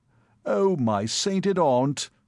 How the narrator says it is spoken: he moaned

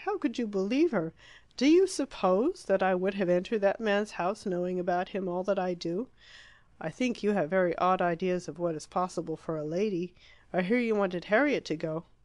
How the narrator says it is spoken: she exclaimed

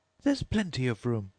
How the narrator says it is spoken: said Alice indignantly

